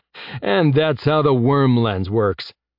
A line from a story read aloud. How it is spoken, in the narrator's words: Jeb said, chuckling